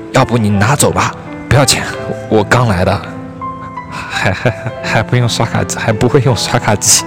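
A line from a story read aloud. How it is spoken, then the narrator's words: Shy girl, quiet. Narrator (Chinese): 服务员小姑娘红着脸小声对我说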